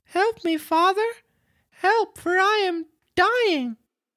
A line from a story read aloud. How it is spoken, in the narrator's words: cried out weakly